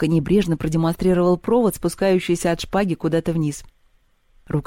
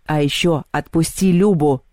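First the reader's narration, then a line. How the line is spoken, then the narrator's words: Growl. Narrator (Russian): зарычал Мишка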